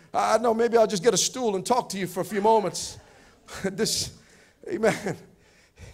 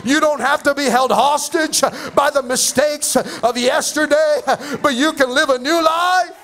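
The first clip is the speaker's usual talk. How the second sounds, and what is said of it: Excited shouting. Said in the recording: “sorry for shouting. I get a little bit excited.”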